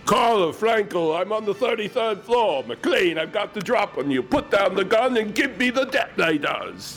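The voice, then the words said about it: Hans Gruber villain accent impression. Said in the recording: “Hans. You're a tricky with that one. You should be on TV or YouTube with that accent.”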